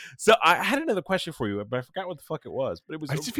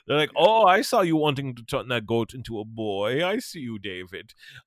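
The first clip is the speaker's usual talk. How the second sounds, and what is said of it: German dominatrix voice. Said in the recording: “That is a great impression. I love that. I love your German dominatrix impression. That's super good.”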